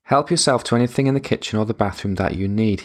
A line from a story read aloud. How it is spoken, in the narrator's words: he said